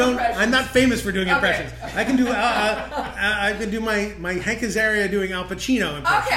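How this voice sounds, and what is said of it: Usual voice. Nothing is said of it.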